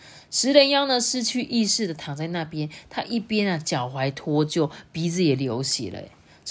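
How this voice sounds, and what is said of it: Usual voice. Nothing is said of it.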